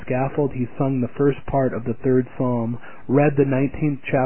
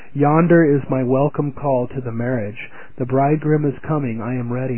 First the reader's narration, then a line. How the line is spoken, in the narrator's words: When the drums beat for his execution, he exclaimed